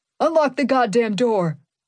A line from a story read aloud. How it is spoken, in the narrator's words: yelled